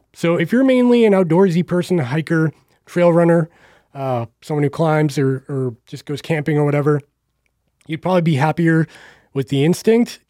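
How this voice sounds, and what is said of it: Strained, fading hoarse voice. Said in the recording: “Losing my voice.”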